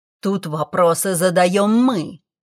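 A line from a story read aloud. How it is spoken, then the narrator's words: Man hissing. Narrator (Russian): прошипел мужчина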